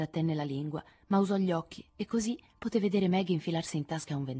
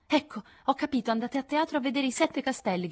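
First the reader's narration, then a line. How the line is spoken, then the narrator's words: Shouted. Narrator (Italian): gridò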